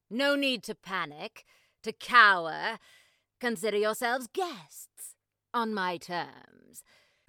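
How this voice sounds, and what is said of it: Put-on mid-Atlantic accent. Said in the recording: “I was going for a kind of mid-Atlantic there. Very popular.”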